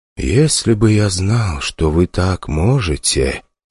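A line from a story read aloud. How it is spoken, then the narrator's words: Said quietly. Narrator (Russian): тихо произнес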